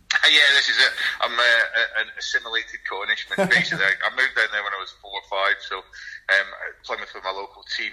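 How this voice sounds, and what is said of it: Scottish accent. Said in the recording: “you've got a very Scottish accent”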